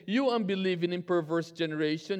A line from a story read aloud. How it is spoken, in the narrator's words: Jesus replied